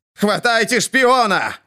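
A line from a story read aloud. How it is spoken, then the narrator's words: Shouting in the dark. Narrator (Russian): кричал Герион вассалом леди во тьме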